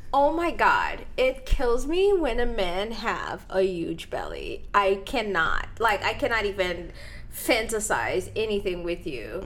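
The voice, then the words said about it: Speaks with a foreign accent. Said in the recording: “because of my accent, I never know how to say this properly”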